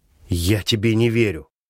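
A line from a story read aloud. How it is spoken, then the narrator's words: Hissing through teeth. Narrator (Russian): шипит сквозь зубы Рита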